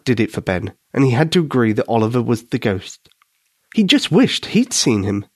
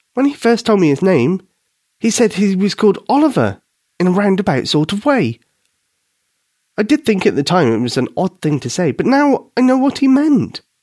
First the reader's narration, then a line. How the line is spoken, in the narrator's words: said Katie eagerly